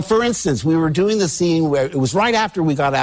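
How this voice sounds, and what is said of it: Usual voice. Nothing is said of it.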